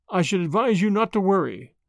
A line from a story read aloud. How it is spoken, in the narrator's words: said the latter kindly